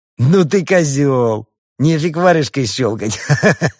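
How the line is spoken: Laughter cut short. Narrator (Russian): Досмеяться он не успел

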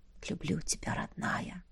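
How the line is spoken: Soft whisper. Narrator (Russian): Тихий шепот

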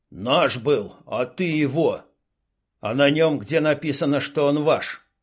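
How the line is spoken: Barked. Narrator (Russian): Рявкнул Дима

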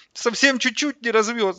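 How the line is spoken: Whimpering. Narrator (Russian): захныкал он

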